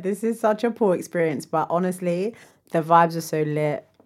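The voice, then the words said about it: Worn-out, strained voice. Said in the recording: “I sound mashup... my voice is so dead... The voice situation is so worth it. I mash up”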